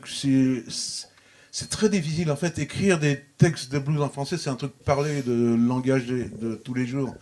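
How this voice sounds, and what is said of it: Parisian French accent. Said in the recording (French): “mon accent parisien de ma manière de parler”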